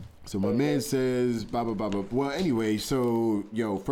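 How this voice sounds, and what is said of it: Usual voice. Nothing is said of it.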